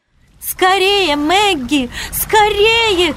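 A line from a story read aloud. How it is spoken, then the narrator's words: Shouting. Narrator (Russian): кричала Вивиана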